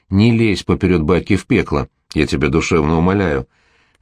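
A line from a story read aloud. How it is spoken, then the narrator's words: Soft but insistent interruption. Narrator (Russian): мягко, но настойчиво прервал дядя Гоша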